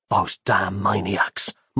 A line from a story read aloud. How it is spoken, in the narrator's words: muttered Nick to himself